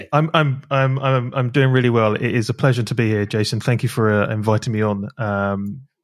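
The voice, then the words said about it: British accent. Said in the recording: “a lovely British accent ... love the accent”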